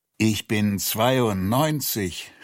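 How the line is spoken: Groaning man. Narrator (German): stöhnte er

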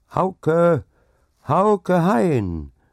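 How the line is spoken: Loud, cheerful call. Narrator (German): rief es laut und fröhlich in die kalte Nacht hinaus

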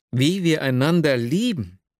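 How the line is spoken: Exclamation. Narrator (German): rief ich aus

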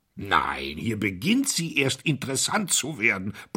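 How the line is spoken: Grumble. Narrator (German): brummte Pound

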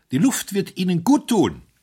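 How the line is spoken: Calling. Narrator (German): rief

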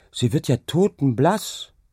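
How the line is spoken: Calling out. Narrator (German): rief sie

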